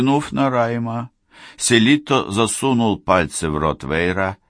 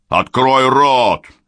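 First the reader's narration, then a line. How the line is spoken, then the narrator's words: Barked order. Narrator (Russian): рявкнул Селитто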